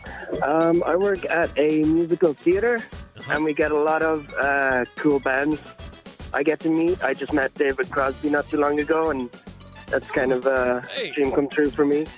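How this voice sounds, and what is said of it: Slight Irish accent, mild brogue. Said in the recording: “I'm picking up a little accent there ... I'm from Ireland ... a little brogue ... the Irish accent”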